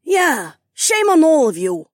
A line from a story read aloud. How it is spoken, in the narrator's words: Debbie snapped